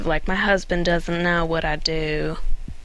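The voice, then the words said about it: Imitates another person's voice. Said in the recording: “That was a great impression. ... That's my J-Love impression.”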